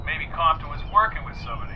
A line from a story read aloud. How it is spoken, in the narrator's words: said Woody